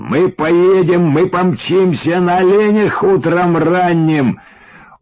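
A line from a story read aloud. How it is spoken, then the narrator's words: Jealous loud yell. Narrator (Russian): инстинктом отвергнутого самца углядел во мне соперника и завопил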